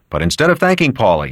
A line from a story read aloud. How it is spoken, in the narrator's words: he said curtly